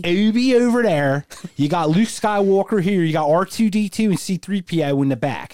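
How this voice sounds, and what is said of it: Put-on Philadelphia accent. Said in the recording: “I'm going to do an Philly accent over there.”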